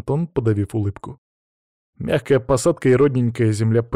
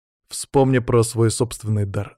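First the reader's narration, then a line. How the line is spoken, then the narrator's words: More serious tone. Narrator (Russian): напомнил я Антону уже немного более серьезным тоном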